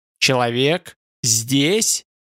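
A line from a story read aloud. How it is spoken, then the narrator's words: Hasty shout. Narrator (Russian): Ютланд крикнул поспешно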